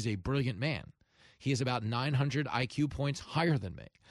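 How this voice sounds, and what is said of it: Usual voice. Nothing is said of it.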